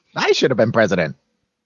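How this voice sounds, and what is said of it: Imitates another person's voice. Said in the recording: “Why does he sound like that? ... Billy Crystal impersonation ... Your Billy Crystal sounds like Mickey Rooney.”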